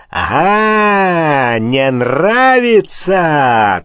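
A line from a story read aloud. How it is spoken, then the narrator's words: Triumphant yell. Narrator (Russian): торжествующе завопил барон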